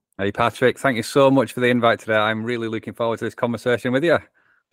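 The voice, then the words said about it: Northwest English accent. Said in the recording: “England is where my accent is from. In between Manchester and Liverpool is where I call home.”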